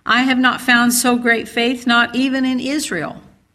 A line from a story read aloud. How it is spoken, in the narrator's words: exclaimed